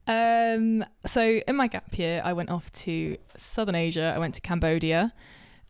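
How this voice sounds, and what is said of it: Surrey English accent. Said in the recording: “In case you can't tell by my voice already, I'm from Surrey.”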